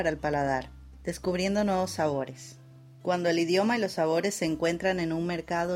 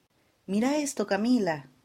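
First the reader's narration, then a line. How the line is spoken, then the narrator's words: Exclaimed. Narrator (Spanish): exclamó Marcos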